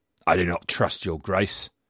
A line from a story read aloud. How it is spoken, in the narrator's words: growled Worcester